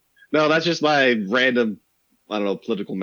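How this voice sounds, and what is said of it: Usual voice. Nothing is said of it.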